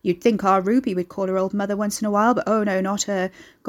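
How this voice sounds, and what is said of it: Broadening regional accent, darker tone. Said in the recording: “She sniffed, accent broadening as her tone darkened.”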